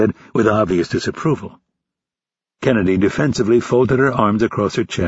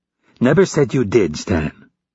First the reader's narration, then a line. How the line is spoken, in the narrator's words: Kennedy said in a biting tone